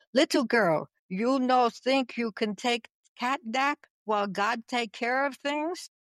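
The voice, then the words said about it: Imitated heavy Czech accent, broken English. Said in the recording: “my parents were Czechoslovakian ... broken English and a heavy accent”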